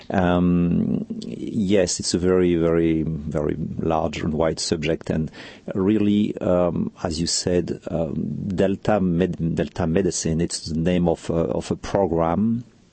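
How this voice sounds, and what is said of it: Deep French accent. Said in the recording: “my deep French accent”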